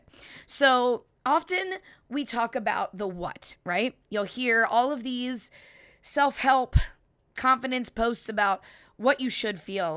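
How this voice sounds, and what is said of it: Slightly raspy, hoarse voice. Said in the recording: “My voice is a little raspy this week ... I sound like I have party girl voice”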